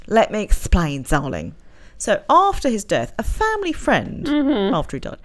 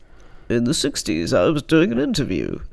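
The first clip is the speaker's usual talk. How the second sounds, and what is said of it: Roger Moore impression, not very good. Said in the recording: “I'm doing the voice. ... It's not very good.”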